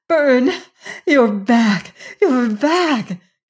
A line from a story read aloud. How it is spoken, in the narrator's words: she cried in joy that rang of her loneliness